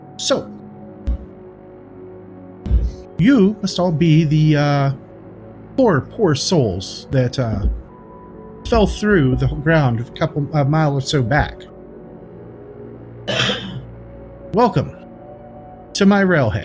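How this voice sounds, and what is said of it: Clipped character voice. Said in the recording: “in a clipped voice”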